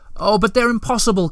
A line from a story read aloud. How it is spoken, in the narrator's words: cried Moomin Troll, beside himself now